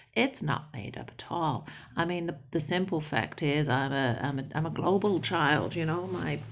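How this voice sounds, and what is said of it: Distinctive mixed accent. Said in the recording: “what's with the accent? I have honestly been accused of having a made-up accent”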